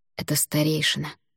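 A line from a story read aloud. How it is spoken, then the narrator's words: Whisper. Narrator (Russian): шепнул Альгидрас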